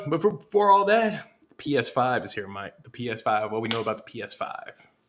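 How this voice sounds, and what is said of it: Hoarse, worn-out voice. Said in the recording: “My voice is gone from the Dallas Cowboys game.”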